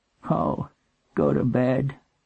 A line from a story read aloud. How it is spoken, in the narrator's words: she said in a flat, tired voice